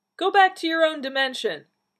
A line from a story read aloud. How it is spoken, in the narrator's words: the man called out